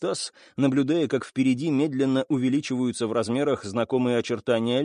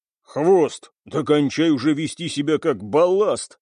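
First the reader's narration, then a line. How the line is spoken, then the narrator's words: Growl. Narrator (Russian): рыкнул Кэп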